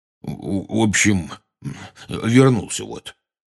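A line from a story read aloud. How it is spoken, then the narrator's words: Weak mumble. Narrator (Russian): слабо промямлил он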